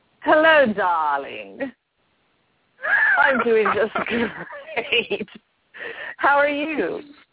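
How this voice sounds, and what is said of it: Snobby, British-sounding put-on voice. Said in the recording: “You went right to the British accent. ... I meant for it to just sound snobby. ... Snobby and snotty.”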